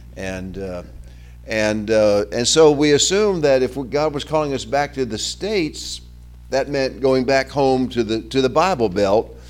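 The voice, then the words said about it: Southern American accent. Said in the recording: “we were from the South. You can hear my accent.”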